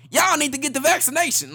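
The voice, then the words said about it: Imitates another person's voice. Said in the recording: “I'm impersonating Chris Rock.”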